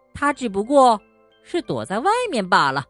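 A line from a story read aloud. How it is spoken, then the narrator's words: Mocking tone. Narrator (Chinese): 猫带着嘲笑的口气说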